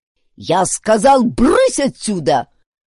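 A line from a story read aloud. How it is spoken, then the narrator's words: Thundering voice. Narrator (Russian): прогремел Гун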